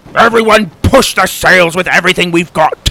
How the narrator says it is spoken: Tim bellowed

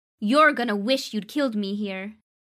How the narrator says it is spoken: she yelled

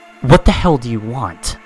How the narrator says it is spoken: I reply angrily

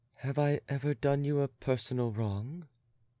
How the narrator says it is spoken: demanded the latter in her sweetest voice

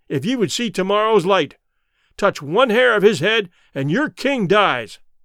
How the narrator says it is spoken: I shouted in their language

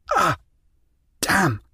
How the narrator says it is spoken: Gasping for breath

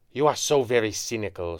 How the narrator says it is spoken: Shah hissed

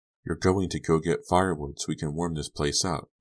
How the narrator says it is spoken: Mandy said softly, trying to soothe him

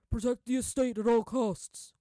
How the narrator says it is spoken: one guard shouted

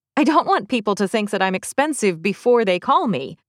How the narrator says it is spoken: said with a laugh

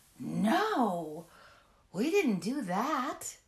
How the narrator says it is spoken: the children gasped

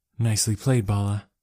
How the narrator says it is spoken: I muttered

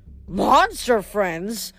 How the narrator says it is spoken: Grover said indignantly

